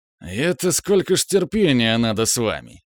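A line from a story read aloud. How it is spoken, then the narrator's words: Good-natured muttering. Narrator (Russian): добродушно пробурчал он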